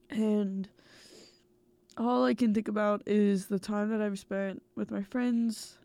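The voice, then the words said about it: Congested, stuffed-up voice. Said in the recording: “hear it in my voice ... I'm currently stuffed up ... I fear I've gotten a little sick”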